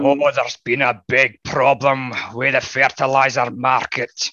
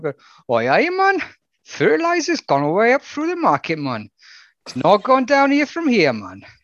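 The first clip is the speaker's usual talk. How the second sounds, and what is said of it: Put-on Geordie accent. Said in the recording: “In a Geordie accent.”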